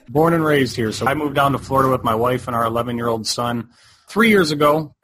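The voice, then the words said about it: Michigan accent. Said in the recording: “based on your accent, you are from Michigan”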